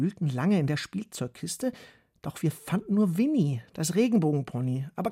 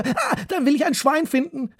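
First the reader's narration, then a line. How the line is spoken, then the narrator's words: Calling out. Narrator (German): rief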